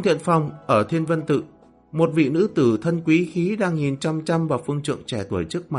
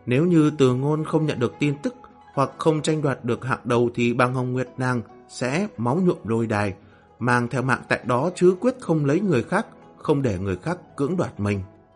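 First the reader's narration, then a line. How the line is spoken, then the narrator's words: Soft bitter murmur. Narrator (Vietnamese): Bàng Hồng Nguyệt đang cố nở nụ cười khổ, nhẹ giọng lẩm bẩm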